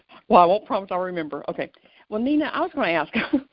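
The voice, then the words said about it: Southern US accent. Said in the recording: “You with your southern accent”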